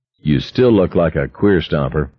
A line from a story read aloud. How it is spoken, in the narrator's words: Richards said evenly